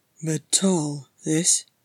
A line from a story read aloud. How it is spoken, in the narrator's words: grumbled to himself